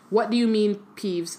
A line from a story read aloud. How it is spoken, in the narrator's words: said Dumbledore calmly